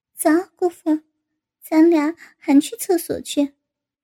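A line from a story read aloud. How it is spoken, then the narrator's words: Smiling. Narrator (Chinese): 高芳笑着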